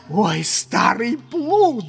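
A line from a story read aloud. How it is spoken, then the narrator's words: Shout. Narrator (Russian): закричал Легран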